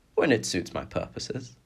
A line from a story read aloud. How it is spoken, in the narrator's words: the boy answered quietly and with a smirk